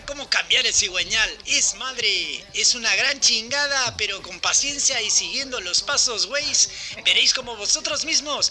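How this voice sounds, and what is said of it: Put-on Mexican Spanish accent. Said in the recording (Spanish): “hablas con acento mexicano”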